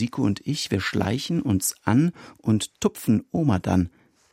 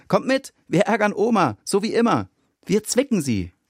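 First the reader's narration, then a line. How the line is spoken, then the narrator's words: Call. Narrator (German): ruft er uns beiden zu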